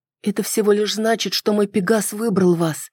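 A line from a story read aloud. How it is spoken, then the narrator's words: Mumbling. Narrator (Russian): пробормотала я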